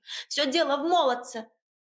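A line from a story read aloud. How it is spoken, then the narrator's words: Shouted after someone. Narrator (Russian): выкрикнула вслед Агаша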